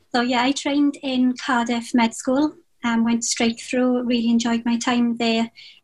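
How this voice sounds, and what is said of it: Welsh accent. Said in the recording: “I'm Welsh trainee. I'm from Wales. It's not much getting away from the accent.”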